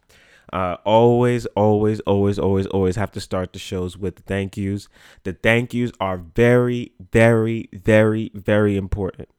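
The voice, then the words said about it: Congested, stuffy-nosed voice. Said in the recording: “hear it in my voice, but the allergies completely are messing with your boy heavy right now... My nose is so congested”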